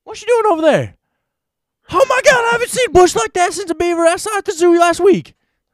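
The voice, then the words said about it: High squealing Jerry Lawler impression. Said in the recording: “I do get the high voice. I could be a good Jerry King. ... Mannerisms for sure. ... you just gotta kind of squeal”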